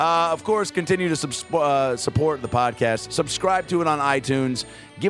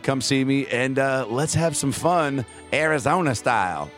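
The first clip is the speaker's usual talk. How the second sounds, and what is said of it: Exaggerated Arizona person voice. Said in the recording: “what was that voice? Is that it? Is that my impression of an Arizona person?”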